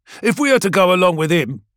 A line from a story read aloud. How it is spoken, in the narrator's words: snaps Carthaeus